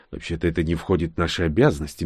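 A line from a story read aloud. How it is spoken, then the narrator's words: Gentle. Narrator (Russian): мягко сказал Карак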